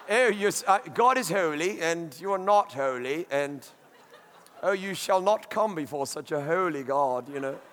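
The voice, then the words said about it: Snooty put-on English accent. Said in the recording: “we have to do it with an English accent ... snooty”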